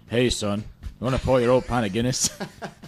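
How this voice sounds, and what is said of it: Put-on Irish accent. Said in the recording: “your Irish accent”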